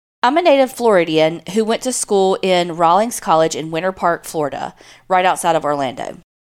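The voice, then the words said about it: Southern American accent. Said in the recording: “your cute southern accents.”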